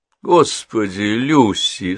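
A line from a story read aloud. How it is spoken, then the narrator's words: Sleepy mumble. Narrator (Russian): сонно пробормотала Генриетта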